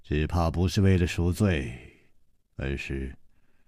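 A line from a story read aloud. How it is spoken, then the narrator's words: Sighing. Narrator (Chinese): 楚留香叹了一口气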